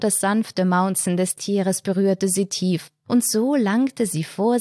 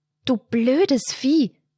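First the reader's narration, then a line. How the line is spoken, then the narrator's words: Hissing, holding back tears. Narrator (German): zischte sie, um nicht loszuweinen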